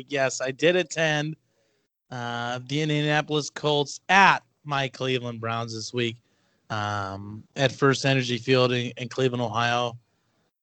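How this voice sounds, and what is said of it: Slightly raspy voice. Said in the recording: “my voice is a little raspy this week”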